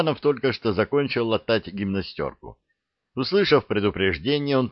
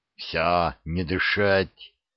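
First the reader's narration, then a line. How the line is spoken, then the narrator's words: Quick hiss. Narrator (Russian): успел прошипеть Штубер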